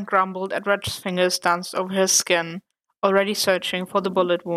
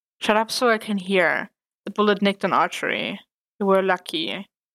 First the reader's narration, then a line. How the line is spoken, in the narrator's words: said Red with a sigh